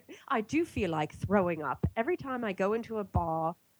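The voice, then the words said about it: Bad put-on British accent. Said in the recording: “I'm going to do a bad British accent.”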